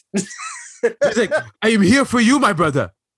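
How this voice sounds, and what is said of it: Put-on foreign accent. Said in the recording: “He's going to start talking with an accent.”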